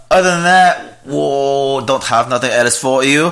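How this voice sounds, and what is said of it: Put-on German-Scottish gibberish accent. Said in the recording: “German, right? ... it sounded more like Scottish. ... It was like a German-Scottish gibberish mixture. ... It was very Shrek-y.”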